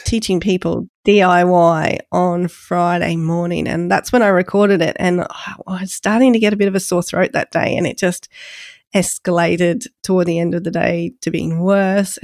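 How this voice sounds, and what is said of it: Congested, snotty-sounding voice. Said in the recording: “my voice sounds a little bit, for lack of a better word, snotty this week, and congested”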